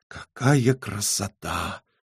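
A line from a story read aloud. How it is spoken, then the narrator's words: Trembling breathless whisper. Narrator (Russian): Дрожащим шепотом выдохнула Элли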